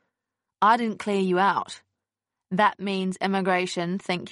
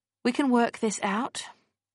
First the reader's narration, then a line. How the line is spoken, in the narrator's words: he said calmly